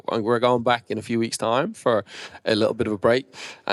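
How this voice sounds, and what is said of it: Slight Australian twang. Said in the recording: “that Aussie twang ... I've already picked it back up ... the way you say Australia, it's different ... The twang”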